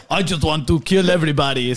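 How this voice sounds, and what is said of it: Attempted Russian accent. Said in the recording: “he's like a Russian, and I don't know how to make a Russian accent”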